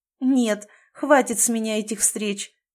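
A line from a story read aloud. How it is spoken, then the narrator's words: Joyless laugh. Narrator (Russian): не очень весело рассмеялась Галя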